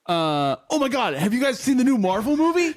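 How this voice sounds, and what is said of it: Impression of a friend. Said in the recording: “I'll impersonate Cody ... if I was going to do Cody, I would be like”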